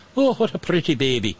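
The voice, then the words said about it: Put-on Irish accent. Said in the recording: “I don't know why she's got an Irish accent, but she does.”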